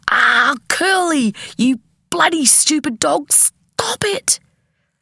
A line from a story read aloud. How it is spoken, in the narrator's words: Mum leapt over the table shouting